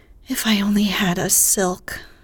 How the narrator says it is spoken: sighed Meg

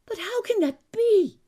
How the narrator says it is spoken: he cried, amazed at my calm

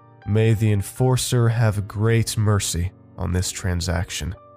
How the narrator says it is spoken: the now trembling voice boomed

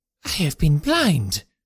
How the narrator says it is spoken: cried the Colonel

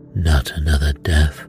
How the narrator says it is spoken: Poirot breathed

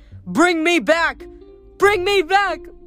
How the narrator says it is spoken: Narcissus shouting

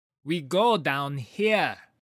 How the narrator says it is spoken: she said, shouting to be heard over the gale

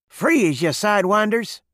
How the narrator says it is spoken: snapped

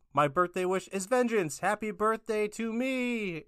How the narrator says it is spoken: Finn shouts

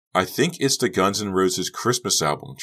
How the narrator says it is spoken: Trish replied, laughing

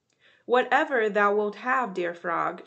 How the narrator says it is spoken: she said

